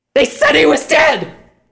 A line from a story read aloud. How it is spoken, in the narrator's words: Scarlet shouted